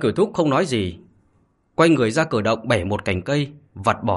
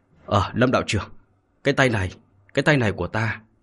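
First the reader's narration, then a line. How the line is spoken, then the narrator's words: Stunned muttering. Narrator (Vietnamese): Hắn sững sờ, miệng lẩm bẩm nói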